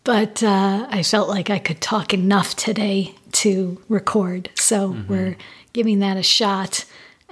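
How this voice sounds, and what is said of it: Hoarse, scratchy, lower voice. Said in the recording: “my voice is a bit hoarse, a bit scratchy, a bit maybe lower and less clear than normal because I am still getting over this virus”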